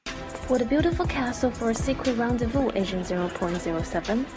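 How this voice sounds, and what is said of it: Put-on American accent. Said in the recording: “Why the American accent”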